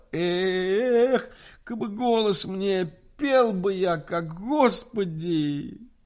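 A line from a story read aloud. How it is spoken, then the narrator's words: Sudden plaintive exclamation. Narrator (Russian): он неожиданно и жалобно восклицал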